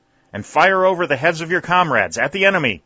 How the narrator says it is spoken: shouted the colonel

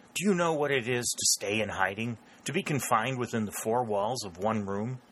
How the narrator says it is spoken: she said, and her voice was more intense even than his had been

